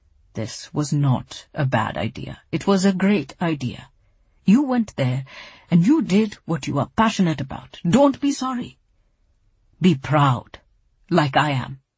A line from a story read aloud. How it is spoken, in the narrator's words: Papa said, his voice quiet and firm